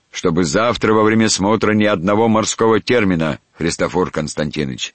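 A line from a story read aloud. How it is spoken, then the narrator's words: Stern. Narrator (Russian): строго проговорил адмирал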